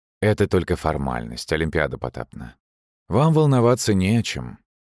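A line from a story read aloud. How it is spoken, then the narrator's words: Breezy calm answer. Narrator (Russian): ответил лихо спокойно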